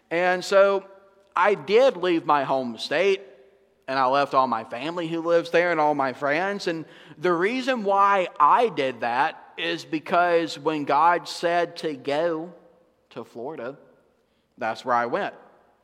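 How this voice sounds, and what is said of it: Northwest Georgia accent. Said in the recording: “you guys can probably tell from my voice, even if you're visitors, that I'm not from Florida ... I'm from up northwest Georgia, up in the mountains”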